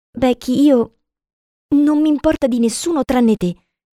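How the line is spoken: Hesitant. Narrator (Italian): disse in tono esitante

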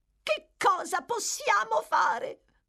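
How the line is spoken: Shouted. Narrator (Italian): gridò la signora Sowerberry

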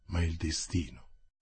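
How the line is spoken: Murmur. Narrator (Italian): mormorò Athos

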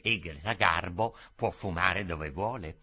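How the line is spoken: Low whispering. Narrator (Italian): sussurravano a bassa voce

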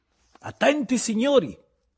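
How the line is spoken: Shout. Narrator (Italian): gridò Bebè Silva

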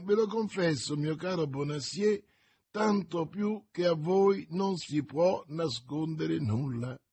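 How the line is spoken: Young man's laughing retort. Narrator (Italian): ribatté ridendo il giovane

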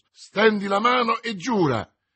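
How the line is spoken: Exclaimed in unison. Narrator (Italian): esclamarono insieme Athos e Aramis

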